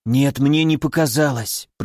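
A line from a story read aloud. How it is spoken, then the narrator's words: Whispered. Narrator (Russian): прошептал Кайто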